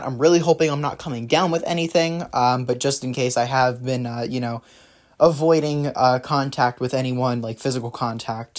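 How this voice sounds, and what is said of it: Slightly raspy, off voice. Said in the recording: “my voice is a little bit raspy, a little bit off”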